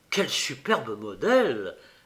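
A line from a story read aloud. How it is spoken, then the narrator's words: Low voice. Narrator (French): fit Guy à voix basse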